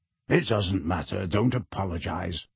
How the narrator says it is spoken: Sirius mumbled at once

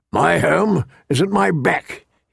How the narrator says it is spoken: said gruffly

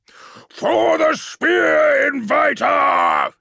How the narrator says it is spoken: he yelled

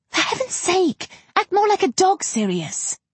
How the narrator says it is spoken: Weasley chastises him, hissing

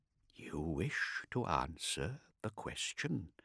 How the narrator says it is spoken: Kartik said softly

